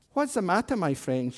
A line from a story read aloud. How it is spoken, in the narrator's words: she asked kindly